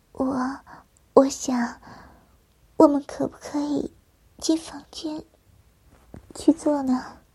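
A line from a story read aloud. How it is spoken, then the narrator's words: Shy blushing whisper. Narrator (Chinese): 表妹红着秀脸，小声的对我说着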